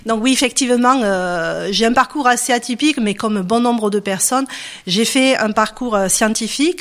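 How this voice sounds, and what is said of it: Southern French Perpignan accent. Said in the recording (French): “je viens de Perpignan, comme mon accent peut-être me laisse supposer.”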